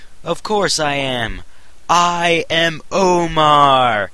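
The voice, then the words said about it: Loud shouting. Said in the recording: “yelled”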